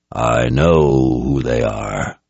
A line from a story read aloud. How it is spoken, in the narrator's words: Jagang said in a deep voice as heavy with threat as with distaste